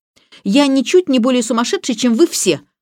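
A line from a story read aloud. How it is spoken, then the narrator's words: Snapped. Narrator (Russian): огрызнулся Роберт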